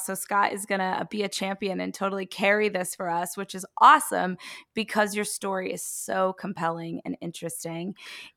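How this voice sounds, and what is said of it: Strained voice, losing its voice. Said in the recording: “I am losing my voice. I know I sound a little crazy right now.”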